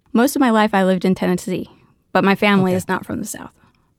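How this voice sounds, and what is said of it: Natural Tennessee accent. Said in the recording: “you took on that accent yourself ... Do you confirm an accent? ... I definitely do. ... Here in Maine, you sound like you have an accent. ... It sounds very natural and authentic.”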